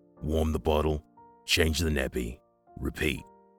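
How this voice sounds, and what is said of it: Booming male character voice. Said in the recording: “in his boom voice”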